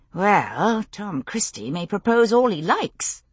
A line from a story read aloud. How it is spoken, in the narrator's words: I murmured to Jamie